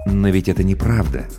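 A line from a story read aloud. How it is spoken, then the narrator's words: Soft. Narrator (Russian): мягко произнес Сарториус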